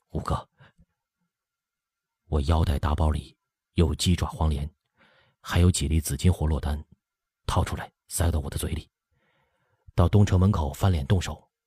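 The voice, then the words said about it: Low, muttering voice. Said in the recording (Chinese): “小声嘀咕”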